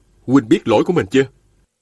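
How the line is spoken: Stern question. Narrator (Vietnamese): nghiêm giọng hỏi

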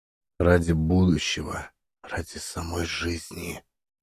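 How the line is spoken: Barely audible. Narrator (Russian): завершил он едва слышно

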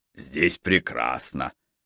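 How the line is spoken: Plain. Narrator (Russian): сказал капитан

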